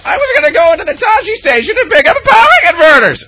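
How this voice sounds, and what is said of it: Imitates another person's voice. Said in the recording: “my only Star Wars impression is where Mark Hamill goes ... my impression of Mark Hamill as Luke Skywalker”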